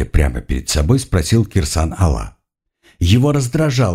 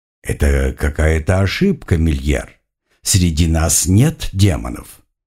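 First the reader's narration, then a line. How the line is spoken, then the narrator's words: Calm answer, priest. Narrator (Russian): спокойно ответил жрец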